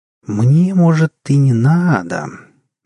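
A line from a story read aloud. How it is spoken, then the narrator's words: Mysterious drawl. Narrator (Russian): загадочно протянула вошедшая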